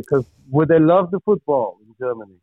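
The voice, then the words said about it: Put-on German accent. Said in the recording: “is that a German accent? ... that's my best I could do”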